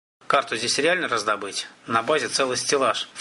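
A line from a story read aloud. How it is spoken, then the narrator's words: Snort. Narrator (Russian): фыркнул Яцек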